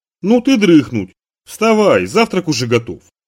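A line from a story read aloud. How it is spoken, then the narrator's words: Cheerful speech. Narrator (Russian): Дилька радостно сказала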